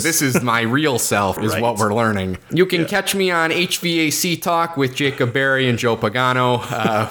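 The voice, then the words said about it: Very thick Chicago accent. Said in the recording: “My terrific Chicago, very thick Chicago accent. ... take off my mask of normal person accent.”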